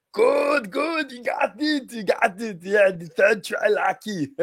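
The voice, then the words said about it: Imitates another person's voice, croaky. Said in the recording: “you're keeping that accent the whole time ... my voice is croaked. I can't do Arnold properly this week”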